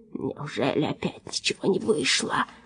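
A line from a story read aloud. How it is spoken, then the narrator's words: Whisper. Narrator (Russian): прошептал он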